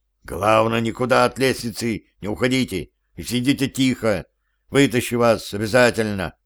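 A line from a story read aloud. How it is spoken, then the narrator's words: Loud whisper. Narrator (Russian): громким шепотом сказал Гансу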